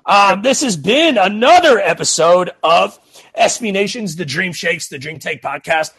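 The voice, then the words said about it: Raspy voice. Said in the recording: “I do apologize for my raspy throat tonight.”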